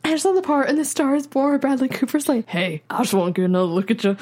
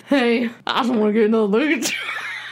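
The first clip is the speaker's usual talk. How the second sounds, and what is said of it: Imitates another person's voice. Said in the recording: “Are you trying to do the voice? Don't hurt your voice.”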